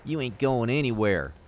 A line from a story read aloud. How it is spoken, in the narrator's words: he said through gritted teeth